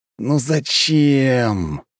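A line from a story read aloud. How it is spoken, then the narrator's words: Dismayed groan. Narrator (Russian): простонал я, когда понял, что она сделала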